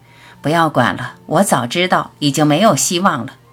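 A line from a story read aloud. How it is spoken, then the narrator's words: Dejected sigh to self. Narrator (Chinese): 泄气的自私自叹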